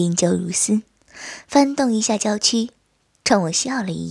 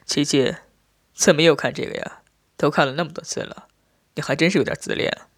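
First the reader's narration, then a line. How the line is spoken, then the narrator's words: Soft laugh. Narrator (Chinese): 轻轻笑道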